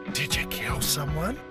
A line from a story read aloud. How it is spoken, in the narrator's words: He asked in a stage whisper